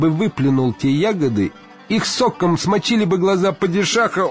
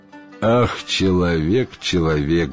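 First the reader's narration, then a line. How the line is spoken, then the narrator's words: Sighing genies. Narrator (Russian): вздохнули джинны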